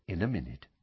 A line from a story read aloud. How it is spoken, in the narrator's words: Lupin said quietly